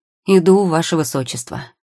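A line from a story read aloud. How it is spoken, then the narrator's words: Loud. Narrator (Russian): громко ответил он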